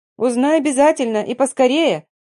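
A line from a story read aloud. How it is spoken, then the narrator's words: Shouting after someone. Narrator (Russian): прокричала вслед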